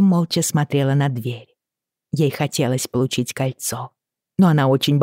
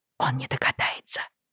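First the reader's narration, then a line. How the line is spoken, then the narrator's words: Whisper. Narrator (Russian): шепнула Брианна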